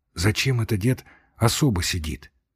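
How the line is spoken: Quiet question. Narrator (Russian): спросил тихо у Степки

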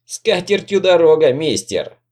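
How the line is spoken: Laughing loudly. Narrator (Russian): расхохоталась вдогонку матушка Пэм

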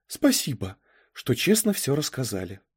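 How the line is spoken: Sighing. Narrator (Russian): вздохнула она

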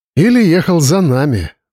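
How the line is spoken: Sighing. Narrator (Russian): вздохнул Павел

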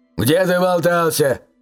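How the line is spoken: Barking father. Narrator (Russian): рявкнул отец

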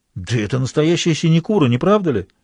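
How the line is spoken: Exclaiming. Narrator (Russian): воскликнул бретонец

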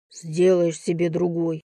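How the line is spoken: Grumbling. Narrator (Russian): буркнул он

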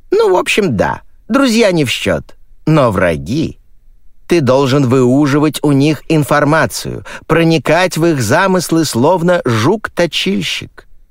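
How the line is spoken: Thoughtful. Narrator (Russian): задумчиво произнесла она

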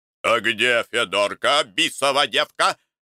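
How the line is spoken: Menacing question. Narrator (Russian): спрашивал грозно

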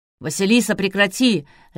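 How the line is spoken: Barked. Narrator (Russian): рявкнул Клычко Жиляев

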